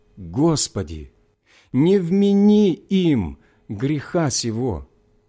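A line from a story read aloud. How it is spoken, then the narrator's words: Loud exclamation. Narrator (Russian): воскликнул громким голосом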